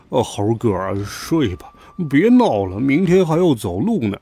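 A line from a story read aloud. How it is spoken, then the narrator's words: Sleepy mumbling. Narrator (Chinese): 猪八戒嘟囔着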